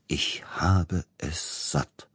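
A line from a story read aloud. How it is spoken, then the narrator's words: Quiet, grim. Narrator (German): sagte er leise und verbissen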